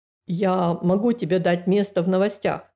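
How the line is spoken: Plain. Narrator (Russian): сказал Норман

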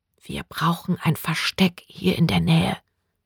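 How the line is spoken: Whispered. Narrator (German): flüsterte sie

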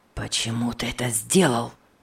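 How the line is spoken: Hissed through clenched teeth. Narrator (Russian): прошипел он, стиснув зубы

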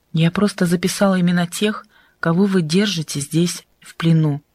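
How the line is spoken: Calm reply. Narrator (Russian): Адель спокойно ответила ему

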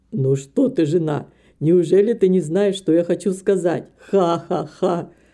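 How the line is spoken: Laughing. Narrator (Russian): Снова засмеялся доктор

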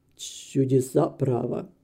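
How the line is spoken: Astonished mutter. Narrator (Russian): Доктор Джереми, вытаращив глаза, он пробормотал

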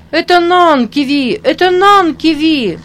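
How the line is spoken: Children's delighted shouts. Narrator (Russian): кричали некоторые дети и прыгали от восхищения

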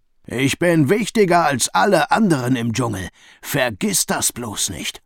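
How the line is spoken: Roared. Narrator (German): brüllte Rino

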